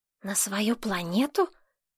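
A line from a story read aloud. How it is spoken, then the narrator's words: Whispered question. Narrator (Russian): шепотом спросил Кустик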